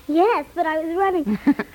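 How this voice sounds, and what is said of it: Breathless, out of breath. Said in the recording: “out of breath.”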